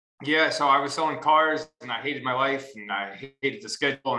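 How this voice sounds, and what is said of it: New York accent. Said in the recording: “your guys' accent kind of reminds me of each other ... you got to be from New York”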